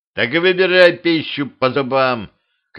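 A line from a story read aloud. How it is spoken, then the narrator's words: Shouted into the bushes. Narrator (Russian): крикнул змею в кусты Дюдя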